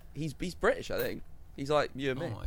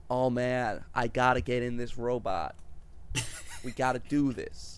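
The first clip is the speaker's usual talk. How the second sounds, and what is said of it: Put-on American accent. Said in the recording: “The main guy's American accent is so funny ... He's so like putting on an American.”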